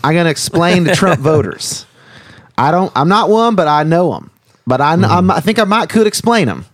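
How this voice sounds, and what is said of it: Exaggerated Southern dialect impression. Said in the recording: “my Carter impression ... the impression of all liberal elites toward what they perceive to be uneducated Southerners ... doing you at your most Southern, your dialect”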